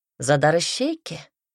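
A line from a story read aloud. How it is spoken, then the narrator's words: Snorting. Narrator (Russian): хмыкнул собеседник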